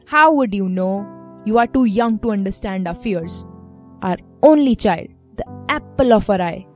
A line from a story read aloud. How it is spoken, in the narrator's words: they grunt